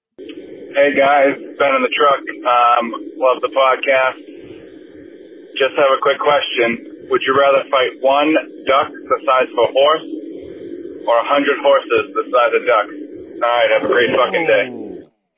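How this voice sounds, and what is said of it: Massachusetts accent. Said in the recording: “with a Massachusetts accent, I believe”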